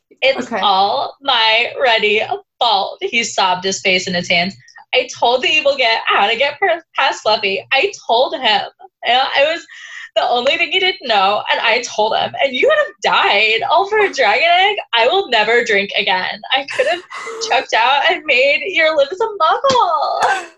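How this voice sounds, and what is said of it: Sorority girl character voice. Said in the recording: “I'm going to read this paragraph in a sorority girl voice”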